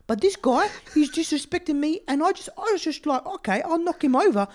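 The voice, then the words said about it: Put-on accent, tough-guy character voice. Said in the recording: “His accent is so perfect.”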